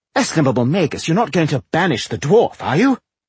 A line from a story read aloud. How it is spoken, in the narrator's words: exclaimed Jolison, trying to sound horrified